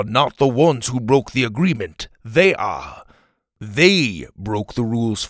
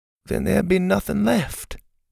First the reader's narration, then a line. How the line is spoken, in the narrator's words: Pa said quietly